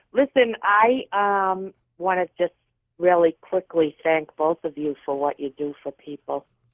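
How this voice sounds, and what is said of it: Boston accent. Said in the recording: “I love Boston. I love your accent... Oh, it's darling.”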